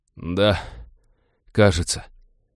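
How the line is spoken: Wheezing creature. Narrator (Russian): просипел смутно напоминавший Винни красноглазый уродец

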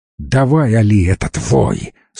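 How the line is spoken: Through gritted teeth. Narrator (Russian): сквозь зубы процедил он

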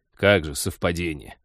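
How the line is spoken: Contemptuous scoff. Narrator (Russian): презрительно хмыкнул пилот

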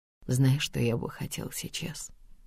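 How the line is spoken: Quiet, muffled into shoulder. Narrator (Russian): тихо спрашивает Рушан мне в плечо

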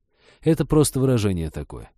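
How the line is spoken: Sighing. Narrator (Russian): вздохнул Женька

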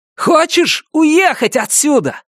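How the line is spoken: Shouted. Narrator (Russian): прокричал я

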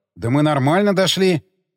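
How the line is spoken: Muttering. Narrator (Russian): пробормотал я

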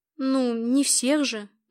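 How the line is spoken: Uncertain objection. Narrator (Russian): неуверенно возразила я

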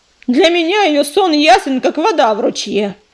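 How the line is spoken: Harsh bark. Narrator (Russian): рявкнул Коршун

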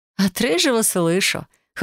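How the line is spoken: Laughing. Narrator (Russian): хохотнула я

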